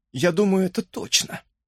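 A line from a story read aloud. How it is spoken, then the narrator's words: Moaning. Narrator (Russian): простонала Бет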